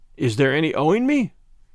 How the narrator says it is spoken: He asked anxiously

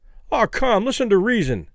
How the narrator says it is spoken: Kelly pleaded

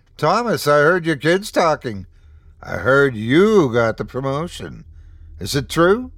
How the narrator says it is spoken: exclaimed

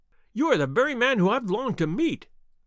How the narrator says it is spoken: cried the little fellow

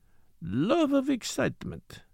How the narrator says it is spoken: he murmured

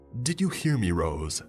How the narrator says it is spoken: he shouts

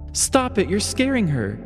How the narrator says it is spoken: Margaret exclaimed

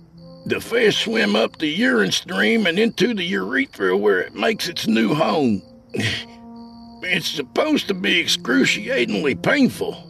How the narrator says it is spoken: I wheezed

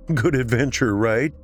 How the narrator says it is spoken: He said punctuating the words with nervous laughter

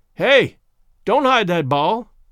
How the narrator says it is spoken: yelled in his piercing tenor

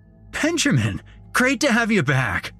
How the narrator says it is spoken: he basically shouted

